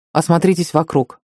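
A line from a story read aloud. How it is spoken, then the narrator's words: Plain. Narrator (Russian): сказал Кевин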